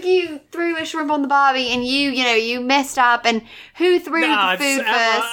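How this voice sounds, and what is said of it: Put-on Australian accent. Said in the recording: “brown, coked out Australian guy's office ... Don't do the accent.”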